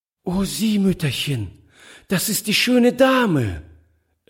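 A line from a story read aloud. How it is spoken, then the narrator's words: Delighted cry. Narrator (German): rief sie voll Entzücken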